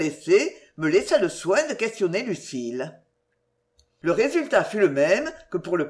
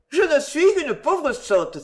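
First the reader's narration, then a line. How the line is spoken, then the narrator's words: Ashamed exclamation. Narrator (French): s'écria, les joues rouges de honte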